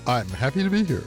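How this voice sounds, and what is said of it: Upbeat, cheerful radio-announcer voice. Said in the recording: “Oh, wow. Yes, he is really happy. ... That's my radio voice.”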